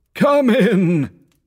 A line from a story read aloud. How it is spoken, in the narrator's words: exclaimed the ghost